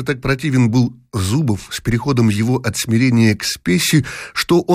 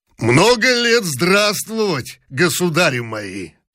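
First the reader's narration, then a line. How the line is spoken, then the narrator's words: Hoarse bass huntsman's voice. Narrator (Russian): хриплым голосом доезжачего пробасил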